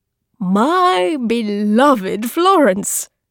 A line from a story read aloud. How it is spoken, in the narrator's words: Pope Leo X, or maybe Giovanni de' Medici, declared, his voice carried